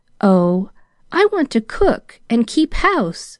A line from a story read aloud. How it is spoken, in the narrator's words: smiled Pollyanna with a pensive sigh